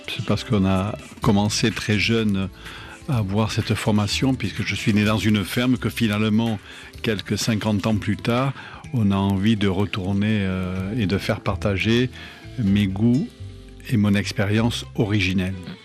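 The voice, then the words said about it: Southwest French accent. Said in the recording (French): “on reconnaît l'accent du Sud-Ouest”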